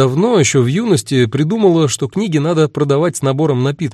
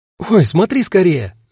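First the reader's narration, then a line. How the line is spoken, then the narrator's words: Sudden exclamation. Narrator (Russian): вдруг воскликнула она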